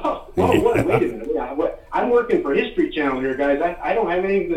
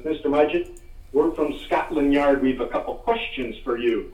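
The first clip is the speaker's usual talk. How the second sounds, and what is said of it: Put-on English accent. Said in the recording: “very English accent”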